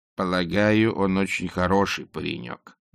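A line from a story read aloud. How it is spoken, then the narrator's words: Gloomy interruption. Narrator (Russian): мрачно перебила ее матушка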